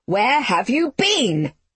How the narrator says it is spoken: she shouted

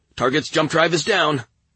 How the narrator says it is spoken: Sergeant Degatta exclaimed

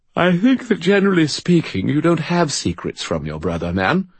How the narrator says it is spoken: Bob said, yawning

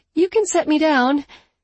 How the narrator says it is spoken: Her voice squeaked a little as she said

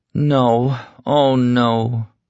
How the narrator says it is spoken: Franny said in a hurt little voice

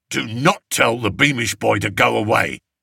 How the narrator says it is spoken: snapped Roach

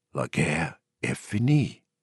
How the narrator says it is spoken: he whispered

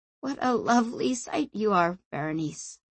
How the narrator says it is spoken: Sanchia exhaled, then said in a croaking voice

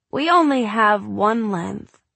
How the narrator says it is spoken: he said a little wistfully

